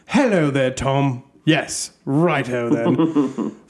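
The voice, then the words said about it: Put-on British accent. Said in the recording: “he turns into a British accent.”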